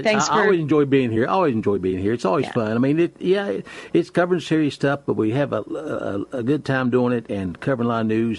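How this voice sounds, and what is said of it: Southern American accent. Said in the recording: “I love that Southern accent.”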